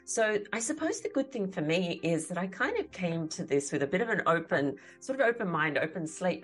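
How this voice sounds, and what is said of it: Australian accent. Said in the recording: “if the accent hasn't given me away yet, so I'm a born and bred Sydney-sider, so I live in Australia”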